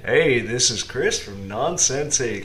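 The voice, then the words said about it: Cowboy-style radio voice. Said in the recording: “Why do you sound like a cowboy right now? ... you sound like a cowboy ... trying out my radio voice”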